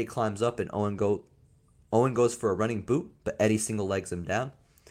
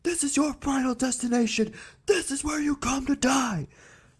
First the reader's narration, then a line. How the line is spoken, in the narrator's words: Owen yells